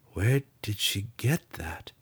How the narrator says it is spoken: Drizzt mumbled

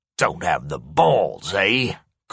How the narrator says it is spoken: Corey sneered

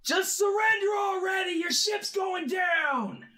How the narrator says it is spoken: We're yelling to him

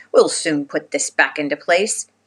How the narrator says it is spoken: he cried out

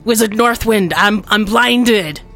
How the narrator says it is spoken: the captain will yell out

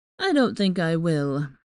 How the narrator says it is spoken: he said lazily

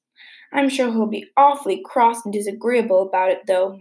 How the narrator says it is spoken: moaned Anne

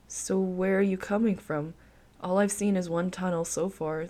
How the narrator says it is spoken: the man said

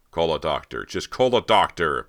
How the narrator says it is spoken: Beau shouted

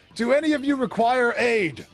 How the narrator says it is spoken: Kraylon shouts out to the crowd

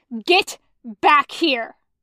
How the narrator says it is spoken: Zhang Cheng screeches

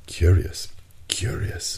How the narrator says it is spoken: muttered the Canadian, who, forgetting his ill temper, seemed to submit to some irresistible attraction

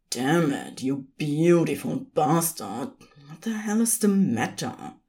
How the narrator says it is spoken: Crowley muttered

